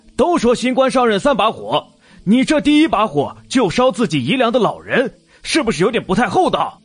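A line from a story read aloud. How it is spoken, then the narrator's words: Loud bellowing. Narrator (Chinese): 有个自认为会察言观色的……扯着嗓门大喊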